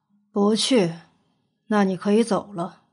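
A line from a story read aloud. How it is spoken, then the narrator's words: Cold voice. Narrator (Chinese): 冷声道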